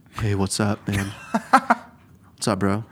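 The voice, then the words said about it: Stereotypical straight bro voice. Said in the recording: “What's your best straight accent?”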